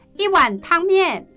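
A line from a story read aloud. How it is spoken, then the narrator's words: Woman calling loudly. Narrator (Chinese): 老板娘，大声喊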